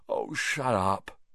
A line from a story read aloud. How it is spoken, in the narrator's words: Harry yawned